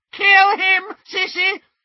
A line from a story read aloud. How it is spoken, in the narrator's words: shrieked Bellatrix